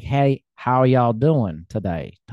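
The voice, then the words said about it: Put-on American Southern drawl. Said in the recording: “a Southern person in the United States has, like, a Southern draw”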